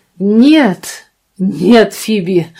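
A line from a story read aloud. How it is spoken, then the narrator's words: Exclaiming. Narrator (Russian): воскликнул мистер Клиффорд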